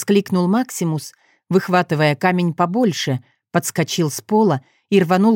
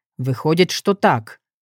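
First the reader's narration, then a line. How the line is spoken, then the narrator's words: Wry grunt. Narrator (Russian): хмыкнул Максимус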